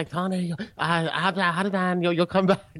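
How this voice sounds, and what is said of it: Put-on Chinese accent impression. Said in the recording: “That's a bad Chinese impression. ... That was spot on.”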